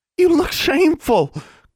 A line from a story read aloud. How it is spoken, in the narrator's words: Constance sputtered